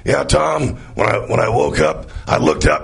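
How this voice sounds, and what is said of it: Imitates another person's voice. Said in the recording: “my Bill Bailey imitation”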